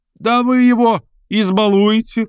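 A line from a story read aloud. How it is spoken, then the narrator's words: Shouting. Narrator (Russian): прокричал Петр Степанович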